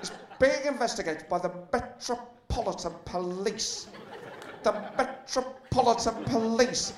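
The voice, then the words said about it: Keir Starmer impression. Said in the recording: “do a Keir Starmer impression ... I can't do one yet. I'm still learning the trade ... it's the most Keir Starmer phrase to say is Metropolitan Police. The way he says it”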